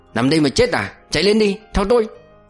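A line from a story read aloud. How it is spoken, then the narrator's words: Shouting. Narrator (Vietnamese): quát lên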